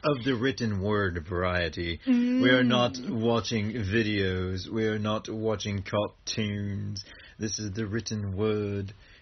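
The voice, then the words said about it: Put-on old English accent. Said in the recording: “for some reason I am going old English accent”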